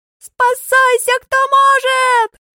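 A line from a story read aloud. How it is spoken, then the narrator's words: Screaming. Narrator (Russian): Вопит Дадошка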